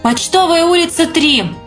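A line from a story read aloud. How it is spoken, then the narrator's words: Sudden exasperated shout. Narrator (Russian): вдруг в сердцах крикнул аптекарь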